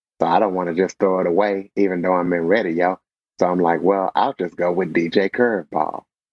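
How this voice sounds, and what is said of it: Polished radio announcer voice. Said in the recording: “you have that radio voice”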